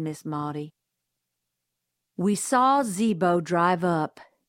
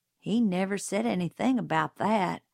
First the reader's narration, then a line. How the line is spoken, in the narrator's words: Jim muttered